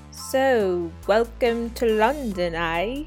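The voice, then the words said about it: Poor attempt at British accent. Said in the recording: “I don't have a British accent ... that was a terrible accent”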